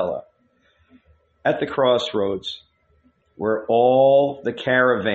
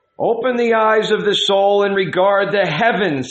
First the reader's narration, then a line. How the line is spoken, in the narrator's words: he cried